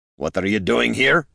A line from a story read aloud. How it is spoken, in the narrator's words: Gorm growled